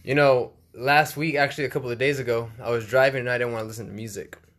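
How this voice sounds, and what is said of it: Hoarse voice. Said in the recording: “my voice is a little. How can you say? ... Horse. ... Hoarse.”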